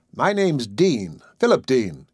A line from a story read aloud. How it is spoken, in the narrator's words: said cheerfully